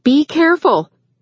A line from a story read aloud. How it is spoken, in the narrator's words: Rachel called out